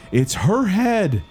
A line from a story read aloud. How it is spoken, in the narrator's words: cried